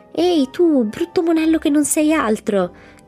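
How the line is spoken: Irritated shout. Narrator (Italian): gridò Mamie irritata, perché sapeva bene cosa si prova con un ombrello che ti sgocciola sulle orecchie

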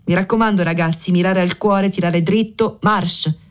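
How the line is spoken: Laughing. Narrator (Italian): disse ridendo

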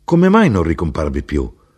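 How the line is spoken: Exclamation. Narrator (Italian): esclamai io

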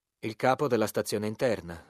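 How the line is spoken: Curt reply. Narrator (Italian): rispose seccamente

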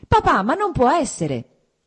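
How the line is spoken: Shouted. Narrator (Italian): gridò Kitty

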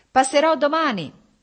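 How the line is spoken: Shouted. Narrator (Italian): gridò Stepan Arkadyč

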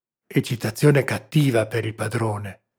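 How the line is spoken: Whisper. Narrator (Italian): sussurrò il servo

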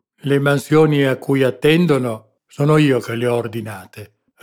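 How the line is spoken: Sour, resentful retort. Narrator (Italian): ribatté lo spagnolo in tono acido, come risentendosi di qualche supposta punta satirica

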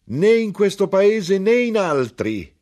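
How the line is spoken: Shouted. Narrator (Italian): gridò

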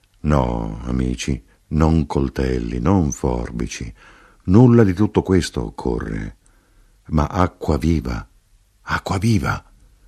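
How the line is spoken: Murmur. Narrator (Italian): mormorò l'Arrotino

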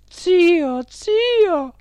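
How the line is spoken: Exclaimed. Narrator (Italian): esclamò la signora Geltrude

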